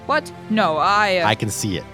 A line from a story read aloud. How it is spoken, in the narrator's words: Teft said